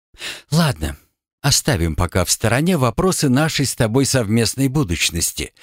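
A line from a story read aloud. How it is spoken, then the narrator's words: Speaking after deep sigh. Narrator (Russian): глубоко вздохнув, произнесла Ряжская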